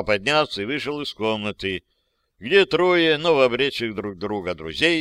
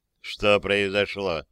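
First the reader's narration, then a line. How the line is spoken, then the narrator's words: Quiet question, father. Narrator (Russian): негромко спросил папа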